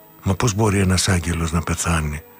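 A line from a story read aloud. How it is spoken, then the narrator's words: Crying. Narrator (Greek): είπα κλαίγοντας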